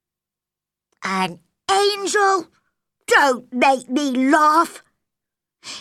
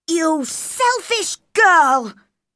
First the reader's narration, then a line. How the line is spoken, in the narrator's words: cried Colin